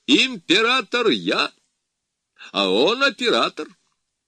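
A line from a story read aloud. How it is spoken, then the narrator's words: Laughing. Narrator (Russian): Смеясь, сказал ему Павел Петрович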